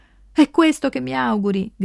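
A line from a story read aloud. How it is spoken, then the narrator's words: Shouting across distance. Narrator (Italian): grida da una sponda all'altra del ruscello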